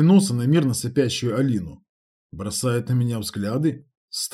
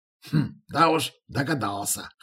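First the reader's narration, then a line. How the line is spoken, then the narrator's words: Wry snort. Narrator (Russian): хмыкнул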